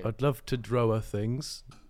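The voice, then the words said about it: Mocks another speaker's accent. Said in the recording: “Are you taking the piss out of my accent now?”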